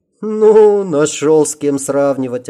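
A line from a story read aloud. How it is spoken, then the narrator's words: Offended drawl. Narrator (Russian): обиженно протянула Сима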